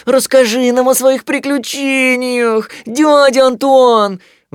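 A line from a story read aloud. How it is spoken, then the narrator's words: Pleading. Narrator (Russian): взмолился Тулуз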